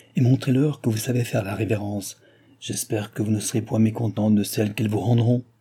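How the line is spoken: Quiet murmur. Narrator (French): dit tout bas le roi à Madame du Barry

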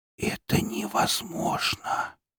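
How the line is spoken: Whisper. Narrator (Russian): прошептала ведьма

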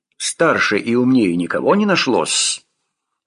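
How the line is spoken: Irritated grumble. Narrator (Russian): Раздраженно проворчал Зарубин

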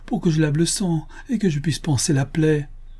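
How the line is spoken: Desperate mother crying out. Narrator (French): s'écria la pauvre mère au désespoir

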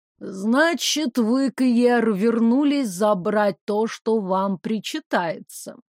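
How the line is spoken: Slow speech. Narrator (Russian): медленно проговорила она

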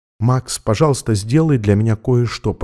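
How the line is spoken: Whisper in ear. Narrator (Russian): прошептала ему на ухо

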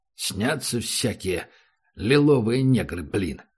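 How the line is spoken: Grumbled. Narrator (Russian): проворчал он

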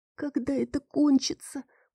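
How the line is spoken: Whispered. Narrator (Russian): прошептала я

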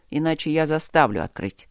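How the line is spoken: Weary command. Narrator (Russian): устало приказал Люк

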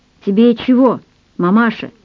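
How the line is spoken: Plain. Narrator (Russian): спросила высунувшаяся голова

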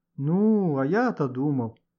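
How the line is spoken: Disappointed drawl. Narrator (Russian): разочарованно протянул Леха

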